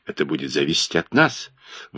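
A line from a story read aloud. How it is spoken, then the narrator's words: Calm female objection. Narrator (Russian): возразила она спокойно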